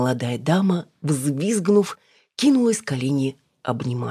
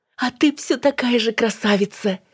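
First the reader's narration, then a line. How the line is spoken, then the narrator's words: Exclaimed. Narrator (Russian): воскликнула Снежана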